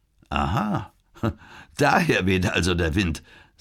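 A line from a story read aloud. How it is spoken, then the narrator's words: Laughing. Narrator (German): sagte Kaufung lachend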